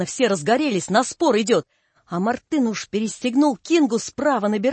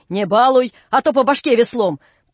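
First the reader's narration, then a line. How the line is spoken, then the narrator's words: Group shouting. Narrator (Russian): мы закричали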